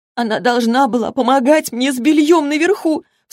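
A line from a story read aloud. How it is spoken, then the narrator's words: Tearful sobbing. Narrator (Russian): всхлипывала Молли, слезы текли по ее лицу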